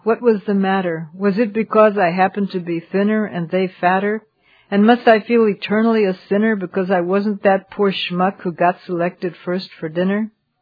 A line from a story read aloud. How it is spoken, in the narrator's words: He laughed, reflecting on his luck